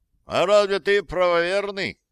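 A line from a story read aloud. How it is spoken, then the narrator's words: Shouted out. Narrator (Russian): выкрикнул кто-то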